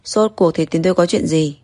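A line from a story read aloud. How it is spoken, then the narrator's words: Cold. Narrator (Vietnamese): lạnh lùng nói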